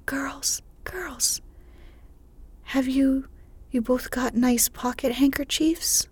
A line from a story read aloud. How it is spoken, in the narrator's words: a voice cried from a window